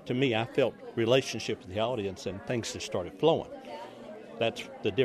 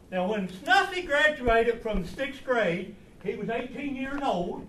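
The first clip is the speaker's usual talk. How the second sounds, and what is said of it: Thick put-on rural accent. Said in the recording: “laid on a thick accent ... taking a teeth out helps a lot, too ... he removed his false teeth for his performance”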